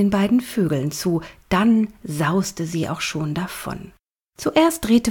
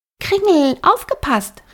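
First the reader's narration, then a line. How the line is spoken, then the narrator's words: Called out. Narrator (German): rief Flora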